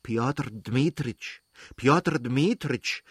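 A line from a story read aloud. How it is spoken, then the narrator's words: Pleading through a door. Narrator (German): sagte mit flehentlicher Stimme durch die offene Tür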